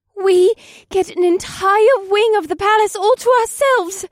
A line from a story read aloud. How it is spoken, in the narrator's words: Alyssa breathed